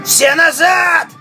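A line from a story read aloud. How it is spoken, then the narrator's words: Shout. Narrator (Russian): закричал Тайкус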